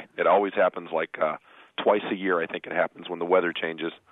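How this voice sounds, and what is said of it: Slightly hoarse voice. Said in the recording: “My voice is a little hoarse today ... I just have to deal with the hoarseness now and then.”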